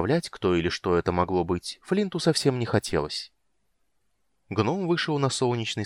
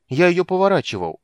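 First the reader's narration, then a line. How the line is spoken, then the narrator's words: Offended drawl. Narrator (Russian): обиженно протянул Кендер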